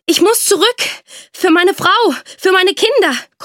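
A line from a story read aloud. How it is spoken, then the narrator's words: Panting. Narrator (German): keuchte er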